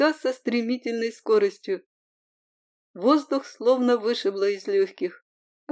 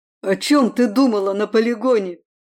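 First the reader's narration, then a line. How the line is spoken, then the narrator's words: Angry growl. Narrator (Russian): рыкнул он, выпуская злобу на волю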